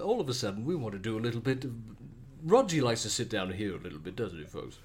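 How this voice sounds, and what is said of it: Australian game show host voice. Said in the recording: “Do Aussie game show voice... Aussie game show... What does Aussie Roger Moore sound like?”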